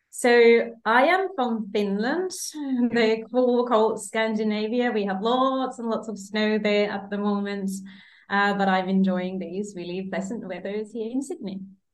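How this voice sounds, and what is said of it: Finnish accent in English. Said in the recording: “I'm hearing an accent.”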